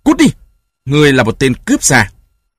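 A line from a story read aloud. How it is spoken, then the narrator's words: Angry shout. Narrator (Vietnamese): giận dữ quát lên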